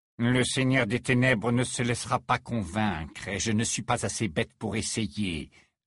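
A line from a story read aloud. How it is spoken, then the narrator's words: Categorical reply. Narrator (French): répondit Rogue d'un ton catégorique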